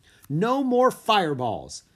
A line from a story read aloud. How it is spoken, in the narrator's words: she yelled